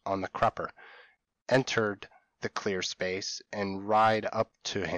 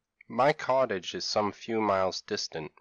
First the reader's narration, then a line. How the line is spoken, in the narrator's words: replied my father